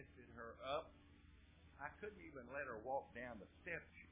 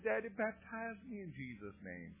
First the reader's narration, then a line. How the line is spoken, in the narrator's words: whining, crying, said